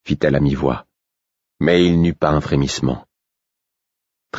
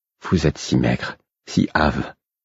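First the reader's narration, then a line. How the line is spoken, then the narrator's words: Sympathetic murmur. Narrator (French): murmura-t-elle d'un ton compatissant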